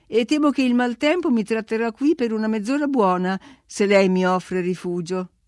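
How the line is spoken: Cordial exclamation. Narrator (Italian): esclamai assumendo un tono cordiale

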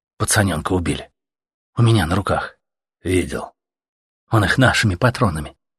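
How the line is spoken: Plain. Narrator (Russian): сказал ему Артем

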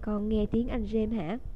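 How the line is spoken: Strange voice. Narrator (Vietnamese): Thầy Lupin nói bằng một giọng rất lạ

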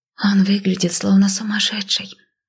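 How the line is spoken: Confused whisper. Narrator (Russian): растерянно шепнула Маяла

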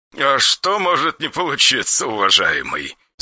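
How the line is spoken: Angry chuckle. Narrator (Russian): Светлейший князь снова хохотнул, но на этот раз с некоторой озлобленностью

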